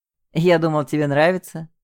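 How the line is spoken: Laughing. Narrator (Russian): засмеялся он

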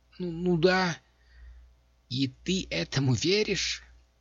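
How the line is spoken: Groaning. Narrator (Russian): Хозяюшка Блот застонала

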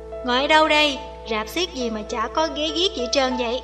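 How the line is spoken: Loud booming voice. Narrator (Vietnamese): tiếng một đứa oang oang

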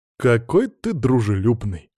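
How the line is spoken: Wry snort. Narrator (Russian): хмыкнул я

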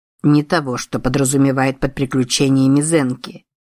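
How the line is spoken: Grumbled. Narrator (Russian): проворчал Юмэй

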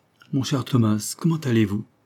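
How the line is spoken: Cordial question. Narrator (French): demanda-t-il d'une voix cordiale

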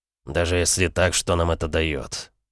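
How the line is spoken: Quiet. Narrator (Russian): тихо произнес он

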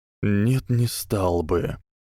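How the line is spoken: Weary and sad. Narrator (Russian): устало и печально отозвался Альбус

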